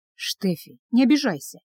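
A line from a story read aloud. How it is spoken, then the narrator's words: Gentle. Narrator (Russian): мягко сказал Руди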